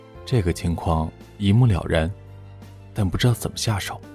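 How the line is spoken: Muttering to himself. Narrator (Chinese): 志哥喃喃自语

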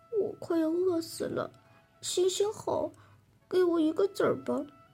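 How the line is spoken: Embarrassed, quiet. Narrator (Chinese): 很不好意思的，低声对他说

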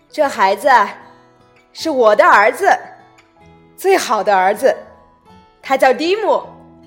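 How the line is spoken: Loud voice. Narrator (Chinese): 大声的继续说

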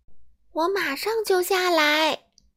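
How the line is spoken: Shouting from upstairs. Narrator (Chinese): 迟到小姐在楼上大叫

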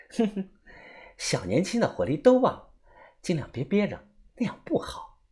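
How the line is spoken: Smug, soft teasing laugh. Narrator (Chinese): 杜鹃眼中闪过一丝的得意，她笑着小声的调侃我

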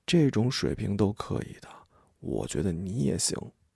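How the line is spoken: Low voice in ear. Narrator (Chinese): 抚在我的耳畔低声说

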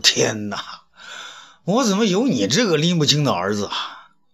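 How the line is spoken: Exasperated, half laughing, half crying. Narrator (Chinese): 东方朔哭笑不得

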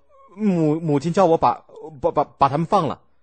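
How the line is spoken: Stuttering. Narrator (Chinese): 晋襄公结结巴巴的说

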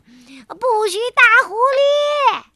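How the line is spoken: Shouting. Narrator (Chinese): 菲菲在喊

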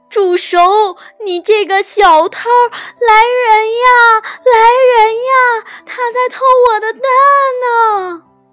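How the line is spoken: Hen shouting. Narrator (Chinese): 突然，母鸡在叫喊

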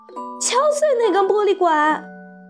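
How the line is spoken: Shouting. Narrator (Chinese): 格鲁普太太大叫

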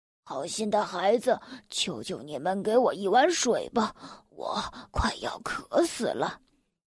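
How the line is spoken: Weak, pleading voice. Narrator (Chinese): 雷公用微弱的声音对兄妹哀求说

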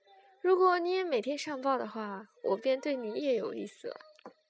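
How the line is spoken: Casual, laughing. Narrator (Chinese): 随口笑道

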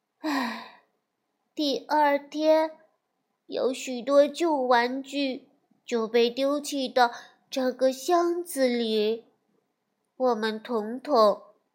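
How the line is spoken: Sighing. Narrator (Chinese): 威利叹气地说道

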